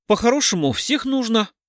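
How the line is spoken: Scoffing snort. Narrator (Russian): хмыкнул Кричко

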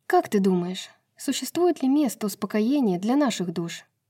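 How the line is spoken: Sighing. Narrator (Russian): вздохнула

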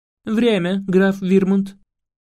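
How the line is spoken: Plain. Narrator (Russian): сказала королева

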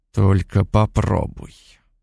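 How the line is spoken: Low growl. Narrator (Russian): понизив голос, прорычал

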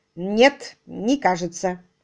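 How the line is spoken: Sharp reply. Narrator (Russian): резко ответил

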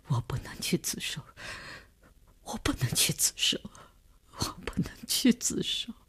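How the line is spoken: Sobbing, breaking down, repeating. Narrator (Chinese): 李大公哭得悲悲切切，他的精神看上去已经濒于崩溃，只是不停地重复着

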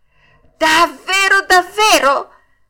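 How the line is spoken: Puppet's joyful shout. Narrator (Italian): gridò il burattino saltando dall'allegrezza

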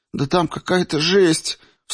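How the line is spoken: Sobbing. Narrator (Russian): Всхлипнула Джан

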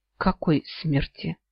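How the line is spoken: Muttered. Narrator (Russian): пробормотала я

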